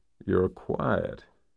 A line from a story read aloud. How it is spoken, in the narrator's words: he said in his low, gravelly American accent